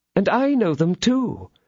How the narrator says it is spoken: exclaimed her ladyship, who felt a cold shudder penetrating to her heart

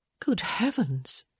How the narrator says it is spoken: she murmured

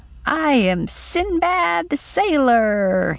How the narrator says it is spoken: he cried

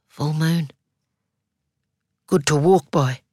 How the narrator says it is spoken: She hoarsely whispers

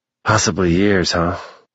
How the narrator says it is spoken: Rig asked with a sigh

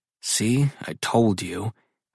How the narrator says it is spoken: I grumble near her ear

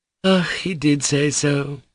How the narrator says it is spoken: sighed Grushenka

